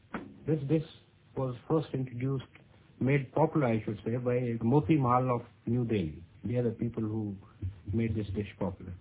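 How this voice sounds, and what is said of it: Indian accent. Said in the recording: “Yes, that's an Indian accent.”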